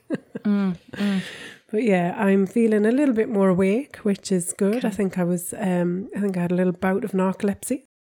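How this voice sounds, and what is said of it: Croaky, slightly hoarse voice. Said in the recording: “You can hear my voice is still a little bit croaky.”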